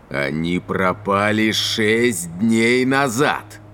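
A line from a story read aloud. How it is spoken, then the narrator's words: Angry growl, rising louder. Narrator (Russian): прорычал Аэтос, и с каждым гневным словом его голос становился все громче и громче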